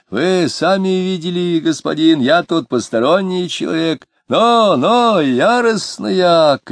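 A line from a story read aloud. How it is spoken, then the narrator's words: Shout. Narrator (Russian): крикнул он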